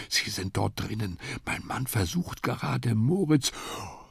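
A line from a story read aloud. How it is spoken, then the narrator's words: Whispered. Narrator (German): Frau Klemm stehen und flüsterte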